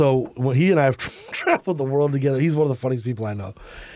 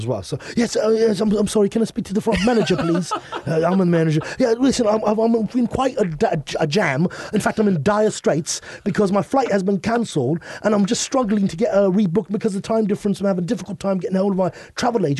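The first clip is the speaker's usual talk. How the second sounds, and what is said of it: Put-on British accent. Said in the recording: “we use our British accents to get unreasonably late checkouts at hotels... nobody can say no to a British accent.”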